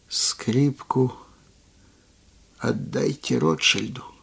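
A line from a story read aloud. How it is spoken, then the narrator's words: Barely audible. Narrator (Russian): И сказал едва слышно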